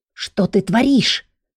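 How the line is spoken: Displeased hiss, inner voice. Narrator (Russian): недовольного шипения в собственной голове

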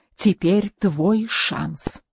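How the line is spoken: Theatrical whisper. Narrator (Russian): Рауль театрально прошептал

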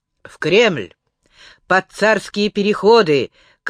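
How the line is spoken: Shouted. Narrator (Russian): крикнул Иванушка кучеру

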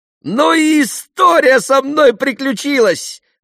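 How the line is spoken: Exclaimed. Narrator (Russian): воскликнул он

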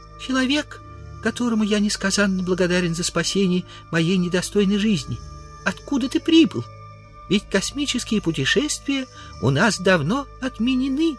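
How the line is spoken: Thin little voice. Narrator (Russian): человечек тонким голоском произнес

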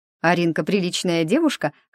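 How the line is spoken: Smirking snort. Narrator (Russian): хмыкнула Вика

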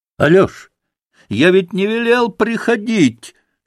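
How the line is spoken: Fierce shout. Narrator (Russian): свирепо крикнул он

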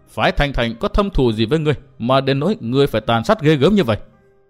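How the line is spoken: Harsh, gritted voice. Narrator (Vietnamese): Người áo xanh gằn giọng

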